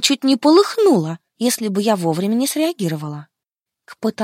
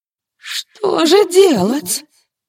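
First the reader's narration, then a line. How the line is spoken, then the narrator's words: Near-sobbing exclamation. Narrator (Russian): Возглас Стеллы был почти всхлипом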